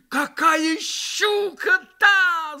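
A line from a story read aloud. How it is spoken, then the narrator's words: Shouting, almost frightened. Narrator (Russian): закричал он почти с испугом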